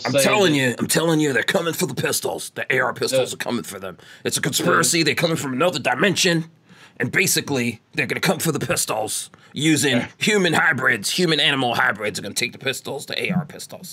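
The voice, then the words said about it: Imitates another person's voice. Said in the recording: “That was your Alex Jones impersonation. ... That was my Alex Jones. ... That was a pretty good. I thought I did a good job there.”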